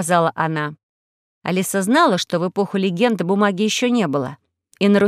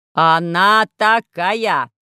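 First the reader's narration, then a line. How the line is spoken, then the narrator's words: Distant shout. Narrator (Russian): закричал из коридора Поля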